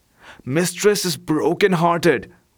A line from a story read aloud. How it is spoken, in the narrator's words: whispered the cat